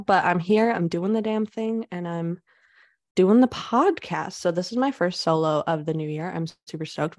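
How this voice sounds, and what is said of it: Nasal, raspy voice. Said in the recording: “I may sound a little nasally, my sexy raspy voice ... because I got a little bit of a cold, a little bit sick right now”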